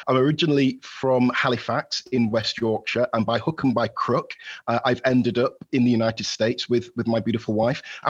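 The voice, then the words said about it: Yorkshire English accent. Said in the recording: “as you might have heard from my accent... I'm a Yorkshire lad at heart”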